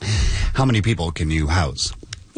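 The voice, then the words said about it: Choked-up, emotional voice. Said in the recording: “I'm getting choked up listening to this story. Give me a second.”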